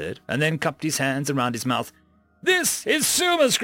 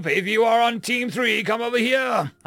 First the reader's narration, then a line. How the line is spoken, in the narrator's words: I shouted